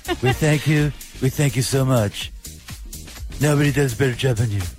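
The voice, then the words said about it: Donald Trump impression. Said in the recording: “No, not like Donald Trump ... I'm glad I can't do a perfect impression.”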